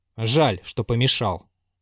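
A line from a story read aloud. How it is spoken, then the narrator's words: Grumbled. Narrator (Russian): проворчал Базаров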